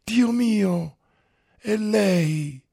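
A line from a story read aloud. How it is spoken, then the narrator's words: Joyful, piercing voice. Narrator (Italian): disse Olga con una voce gioiosa che penetrava nell'anima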